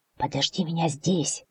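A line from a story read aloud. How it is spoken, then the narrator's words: Water spirit whispering. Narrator (Russian): шепнул водяной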